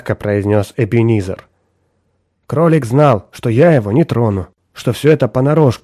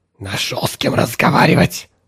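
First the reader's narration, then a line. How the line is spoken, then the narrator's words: Hissing detective. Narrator (Russian): прошипел сыщик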